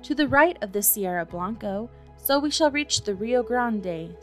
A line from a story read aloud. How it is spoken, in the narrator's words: said another